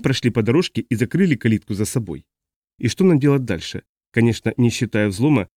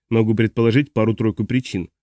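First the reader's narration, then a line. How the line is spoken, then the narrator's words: Plain. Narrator (Russian): сказал Флойд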